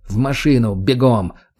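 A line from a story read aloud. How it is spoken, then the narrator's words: Growled command. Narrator (Russian): рыкнул я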